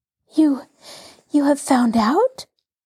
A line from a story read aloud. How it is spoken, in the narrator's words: She asked breathlessly, her whole body tense with eagerness